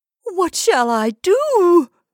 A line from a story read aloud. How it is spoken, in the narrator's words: she cried